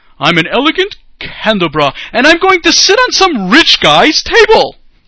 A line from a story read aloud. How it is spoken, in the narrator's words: Then another shouted